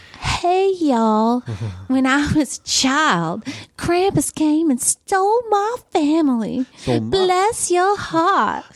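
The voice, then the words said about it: Put-on Southern US accent. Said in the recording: “Let's do it in Southern.”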